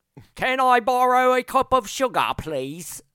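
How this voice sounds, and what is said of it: Put-on British accent. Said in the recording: “That's the only British accent I know... I just imitate Vivian all the time... That was pretty good.”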